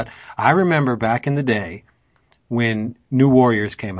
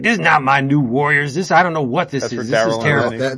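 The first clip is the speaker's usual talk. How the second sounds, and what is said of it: Imitates another person's voice. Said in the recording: “That impression is uncanny, bro. It's like Daryl was right here with”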